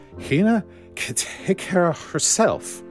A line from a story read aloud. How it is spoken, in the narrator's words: retorted, slightly slurring her words